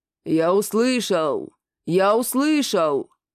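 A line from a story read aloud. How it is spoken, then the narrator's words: Creaky voice. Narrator (Russian): Проскрипел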